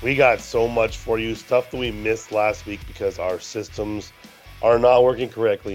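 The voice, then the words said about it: Rough, hoarse voice. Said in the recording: “I sound a little rough because I have a sore throat.”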